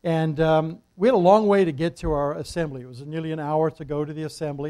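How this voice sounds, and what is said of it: New Jersey accent. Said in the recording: “You can probably tell from our accent, New Jersey accent.”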